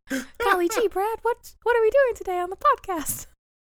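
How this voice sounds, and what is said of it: Mickey Mouse impression. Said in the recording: “now I sound like Mickey Mouse”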